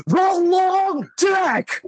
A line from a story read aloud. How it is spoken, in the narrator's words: my father, from nine rooms away, yelled